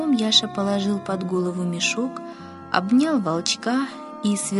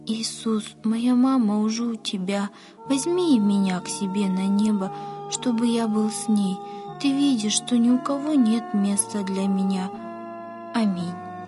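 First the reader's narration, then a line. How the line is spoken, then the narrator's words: Boy's sighing whisper. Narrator (Russian): Мальчик вздохнул и прошептал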